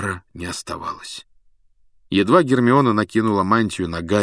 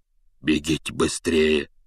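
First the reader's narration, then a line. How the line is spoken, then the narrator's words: Hoarse command. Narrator (Russian): севшим голосом велел он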